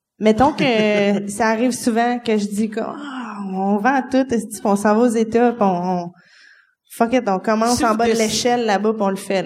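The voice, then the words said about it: Québécois French accent. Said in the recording (French): “j'ai un accent, là, quand je parle. On s'en sauve pas, là, on est Québécois.”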